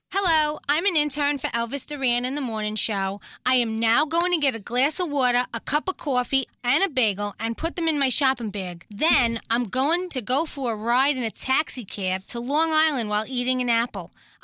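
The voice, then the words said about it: Long Island New York accent. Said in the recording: “she's from New York ... I am originally from Long Island ... the intern accent game ... guess where they were from”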